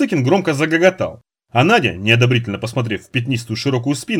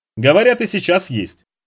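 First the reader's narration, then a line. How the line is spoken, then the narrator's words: Sober, no longer laughing. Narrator (Russian): кивнул переставший смеяться Парсыкин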